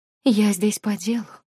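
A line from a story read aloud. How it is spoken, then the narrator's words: Calm. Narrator (Russian): спокойно сообщила пришедшая в мой сон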